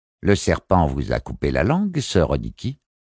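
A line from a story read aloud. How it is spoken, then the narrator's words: Annoyed tone. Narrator (French): reprit la matrion d'un ton agacé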